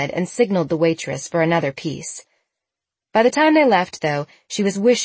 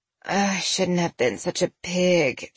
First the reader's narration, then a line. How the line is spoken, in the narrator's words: groaned